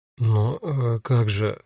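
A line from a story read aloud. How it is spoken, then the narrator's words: Confused mumble. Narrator (Russian): растерянно бормочу я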